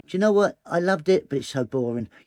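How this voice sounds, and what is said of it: High-pitched southern English voice. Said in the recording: “It's not that high. It's not that squeaky, but people like to call me squeaky ... I'm from south and I've got a high voice”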